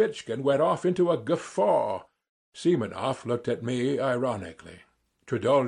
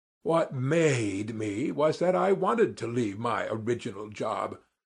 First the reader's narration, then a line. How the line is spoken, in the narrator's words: I drawled more than he, hardly able to control myself